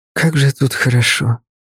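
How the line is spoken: Whisper. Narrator (Russian): прошептала она

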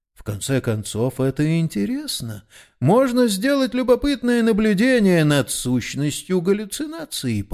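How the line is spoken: Forced calm reply. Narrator (Russian): ответил, стараясь говорить совершенно спокойно

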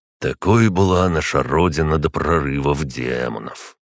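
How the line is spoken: Sighing. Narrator (Russian): вздохнул он

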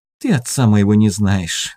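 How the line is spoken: Girl sighing. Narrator (Russian): вздохнула девочка

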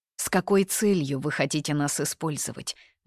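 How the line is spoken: Gloomy inquiry. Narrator (Russian): мрачно полюбопытствовала Ханьи

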